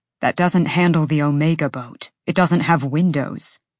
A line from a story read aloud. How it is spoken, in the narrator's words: Rune countered